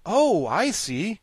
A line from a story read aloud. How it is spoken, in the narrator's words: cried the Scarecrow, greatly reassured